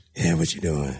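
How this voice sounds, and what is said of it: Whispering. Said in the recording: “On the phone, whispering.”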